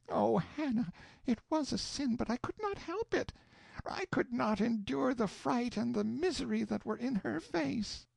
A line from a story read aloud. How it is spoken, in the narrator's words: She choked down a sob and said